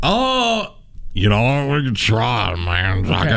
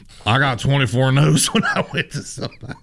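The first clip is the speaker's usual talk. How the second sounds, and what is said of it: Put-on local small-town accent. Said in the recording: “do a good impression of someone from Honeopath? ... you do it as someone from Honeopath”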